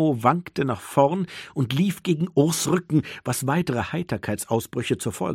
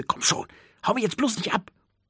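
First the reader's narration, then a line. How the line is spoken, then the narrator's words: Soft hiss. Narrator (German): zischte leise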